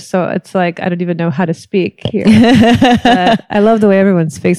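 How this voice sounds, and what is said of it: Valley girl-style speech. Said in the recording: “You sound to me like an intellectual Valley girl”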